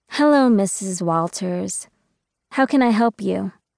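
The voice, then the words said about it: Exaggeratedly polite voice. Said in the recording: “in my most polite voice”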